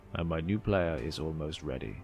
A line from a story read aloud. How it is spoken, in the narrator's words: chuckled quietly to himself